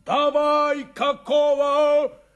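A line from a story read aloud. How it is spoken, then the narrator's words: Yelling. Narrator (Russian): заорал Шурыгин трактористам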